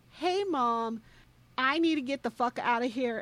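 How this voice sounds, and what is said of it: Drunk, slurred-sounding voice. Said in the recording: “good drunk impression”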